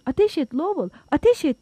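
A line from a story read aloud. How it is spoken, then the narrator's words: Crying out. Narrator (Turkish): diye haykırdı Fields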